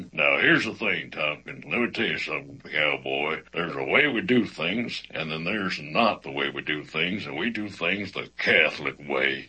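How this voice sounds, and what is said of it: Imitated actor's cowboy voice. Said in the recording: “since it was a cowboy, the first thing that popped in my mind was the actor Sam Elliott. So I gave my best Sam Elliott impression”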